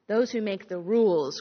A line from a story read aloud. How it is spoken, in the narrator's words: growled Pushkin